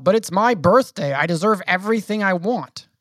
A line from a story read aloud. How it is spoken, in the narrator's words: you yell